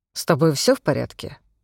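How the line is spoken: Dry question. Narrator (Russian): сухо спросил он

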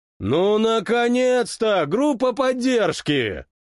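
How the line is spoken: Booming shout. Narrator (Russian): Прогремел на весь коридор Толя

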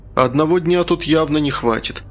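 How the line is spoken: Sighing. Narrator (Russian): вздохнул я

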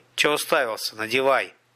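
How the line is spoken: Plain. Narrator (Russian): сказал Пух

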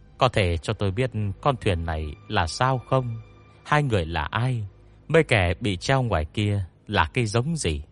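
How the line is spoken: Smiling young man. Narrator (Vietnamese): Thanh niên tóc bạc mỉm cười với Hách Văn Minh

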